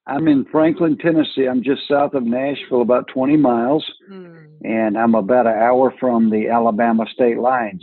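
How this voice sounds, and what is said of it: Southern US accent. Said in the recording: “we love that accent ... My dad was such a Southern gentleman”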